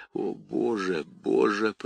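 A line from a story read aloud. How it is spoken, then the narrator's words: Hoarse wheeze. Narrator (Russian): прохрипела она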